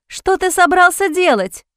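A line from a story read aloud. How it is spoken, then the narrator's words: Disbelieving shout. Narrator (Russian): Кричала она, не в силах поверить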